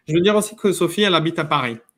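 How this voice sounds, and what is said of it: Speaks French with a foreign accent. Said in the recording (French): “peut-être je suis étranger, les gens sont plus habitués avec un accent”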